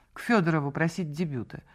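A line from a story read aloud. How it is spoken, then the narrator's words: Icy tone. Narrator (Russian): ответила она ледяным тоном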